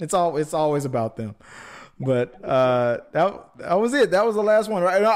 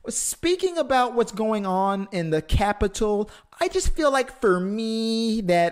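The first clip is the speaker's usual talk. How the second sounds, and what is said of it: Impression of Kendall or Kylie Jenner. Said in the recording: “Bill Burr always does an impression of them”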